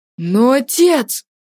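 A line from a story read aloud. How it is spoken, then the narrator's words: Exclamation. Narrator (Russian): воскликнул Артур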